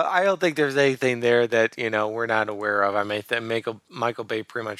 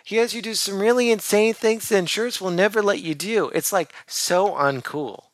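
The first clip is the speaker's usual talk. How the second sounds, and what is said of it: Imitates another person's voice, slightly raised. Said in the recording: “your Megan Fox impersonation is simply inserting the word like whenever there should be a comma ... I raised my voice a little bit. Did you hear a little bit of inflection”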